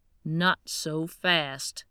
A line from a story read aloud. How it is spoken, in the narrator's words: Gary growled